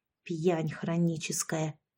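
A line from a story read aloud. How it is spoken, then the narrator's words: Whispered. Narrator (Russian): прошептала я ей в спину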